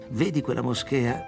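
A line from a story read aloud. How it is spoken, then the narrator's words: Plain. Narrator (Italian): mi disse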